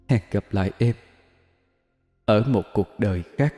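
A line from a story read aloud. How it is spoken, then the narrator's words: Whispered to herself. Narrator (Vietnamese): Cô thì thầm, đang tự nói với linh hồn bên trong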